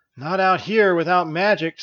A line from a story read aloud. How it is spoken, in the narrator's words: sighed Elisa